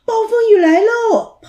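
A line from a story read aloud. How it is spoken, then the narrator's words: Children shrieking. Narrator (Chinese): 孩子们尖叫着说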